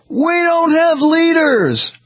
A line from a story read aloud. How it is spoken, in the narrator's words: A voice in the crowd yelled back